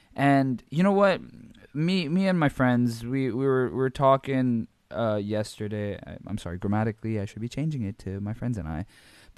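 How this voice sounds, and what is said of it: Hoarse, strained voice. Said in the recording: “my voice is fucked, you guys. Like, there is too much yelling.”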